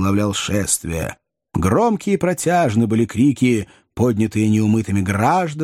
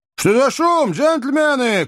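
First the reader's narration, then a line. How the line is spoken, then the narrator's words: Shout. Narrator (Russian): крикнул Сэм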